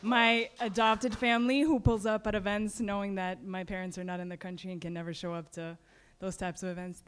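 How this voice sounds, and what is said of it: Hoarse, strained voice. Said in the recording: “I'm losing my voice ... so we had to scream”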